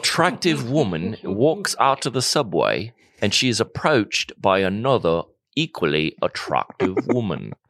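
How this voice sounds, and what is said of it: Bad nature documentary narrator accent. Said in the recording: “Discovery Channel run by aliens that were studying humans ... That's a terrible accent.”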